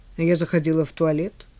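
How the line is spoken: Grumbled. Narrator (Russian): буркнула Кара

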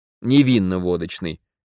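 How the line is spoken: Irritated correction. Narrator (Russian): раздраженно поправила Марина

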